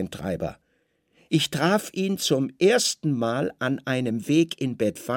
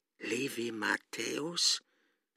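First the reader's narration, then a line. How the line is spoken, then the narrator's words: Hoarse sick man. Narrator (German): fragte der Kranke heiser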